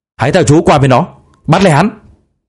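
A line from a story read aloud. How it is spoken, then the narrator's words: Instant loud shout. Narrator (Vietnamese): Điền Việt Tiến không cần nghĩ ngợi hét lớn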